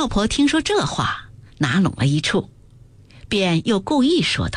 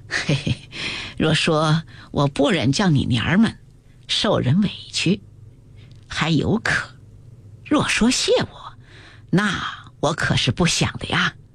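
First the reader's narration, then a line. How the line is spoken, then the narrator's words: Laughing. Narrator (Chinese): 听说如此，便笑道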